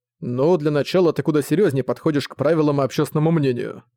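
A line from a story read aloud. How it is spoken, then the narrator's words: Plain. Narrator (Russian): сказал Зориан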